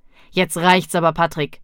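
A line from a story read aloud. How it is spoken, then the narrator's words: Stern mother. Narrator (German): sagte die Mutter streng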